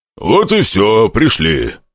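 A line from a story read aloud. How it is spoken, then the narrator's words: Growling demon. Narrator (Russian): прорычал демон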